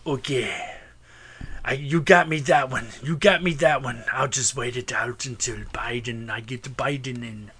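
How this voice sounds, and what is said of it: Weak Russian accent, sounds Austrian. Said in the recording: “Why does your Putin sound like Arnold Schwarzenegger? ... That's the best Russian accent I got for now. ... I don't have a good Russian accent”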